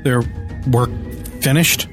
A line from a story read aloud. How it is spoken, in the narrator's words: I muttered in despair